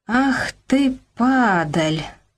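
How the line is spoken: Hissed through teeth. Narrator (Russian): процедила Нина Аркадьевна

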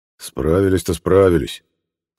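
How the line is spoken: Gloomy grumble. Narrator (Russian): хмуро пробурчал Леонид Петрович

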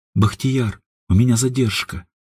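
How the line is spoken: Quiet. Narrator (Russian): тихо сказала она

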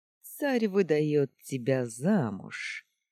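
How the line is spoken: Snide, smiling. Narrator (Russian): ехидно улыбнулся Челгаан

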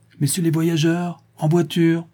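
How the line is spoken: Full-voiced official shout. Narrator (French): crie l'employé, qui donne toute sa voix en notre honneur

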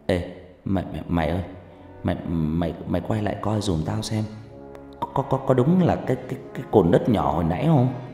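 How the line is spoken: Stammering. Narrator (Vietnamese): nó lắp bắp

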